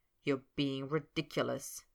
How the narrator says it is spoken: Snape grumbled

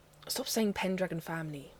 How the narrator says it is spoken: Merlin mutters darkly

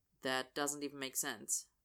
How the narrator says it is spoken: Austin says flatly

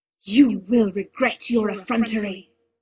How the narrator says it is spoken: he hissed

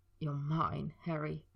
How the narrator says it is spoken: Draco had whispered, his voice cracking over the words

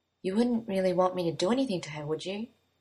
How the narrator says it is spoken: Merlin asked quietly

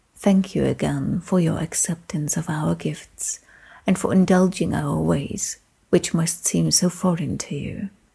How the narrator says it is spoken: Elga, pale eyes soft and content, whispered

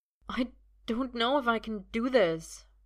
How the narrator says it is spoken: Merlin says, and his voice wavers

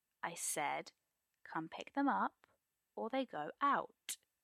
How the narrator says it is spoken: Arthur repeats slowly, voice cold

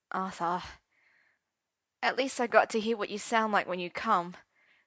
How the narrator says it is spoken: said Arthur wistfully

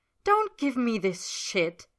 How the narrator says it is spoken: Ed snaps, cutting Roy off mid-sentence

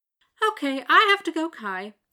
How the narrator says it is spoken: she says cheerfully

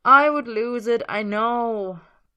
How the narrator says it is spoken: Merlin sighs

